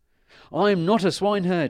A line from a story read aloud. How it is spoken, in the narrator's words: he cried